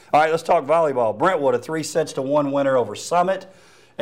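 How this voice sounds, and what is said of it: Southern American accent. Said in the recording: “Southern accent. ... My accent”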